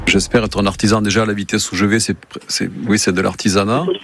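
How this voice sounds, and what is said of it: Slight telltale regional accent. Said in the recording (French): “Y aurait-il un léger indice dans l'accent, peut-être ? ... Un petit peu.”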